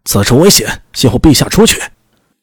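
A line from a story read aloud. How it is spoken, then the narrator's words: Loud shout. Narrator (Chinese): 有人大声喊道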